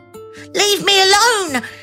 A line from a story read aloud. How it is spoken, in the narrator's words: cried